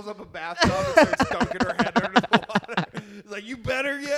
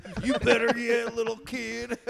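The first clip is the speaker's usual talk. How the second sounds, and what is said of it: Put-on country accent. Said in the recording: “I love how I'm giving your dad a country accent.”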